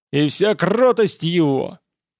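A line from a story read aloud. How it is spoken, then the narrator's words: Bounty hunter's roared battle cry. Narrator (Russian): Охотник за головами проревел свой боевой клич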